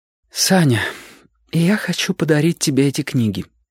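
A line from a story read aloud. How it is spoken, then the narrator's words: Slightly trembling. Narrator (Russian): сказала она немного дрожащим голосом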